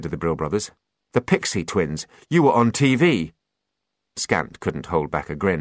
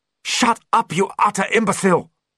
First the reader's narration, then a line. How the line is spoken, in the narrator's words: snapped Opal